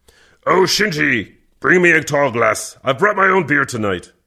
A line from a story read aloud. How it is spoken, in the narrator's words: Kervec grunted